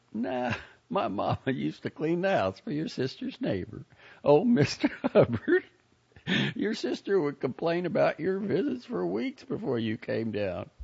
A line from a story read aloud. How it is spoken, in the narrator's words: Joni laughed and said